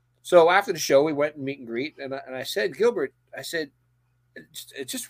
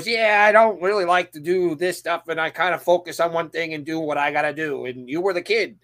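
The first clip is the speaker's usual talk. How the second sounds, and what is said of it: Imitates another person's voice. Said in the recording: “That was a decent Gilbert Godfrey impersonation too. Not great, but decent.”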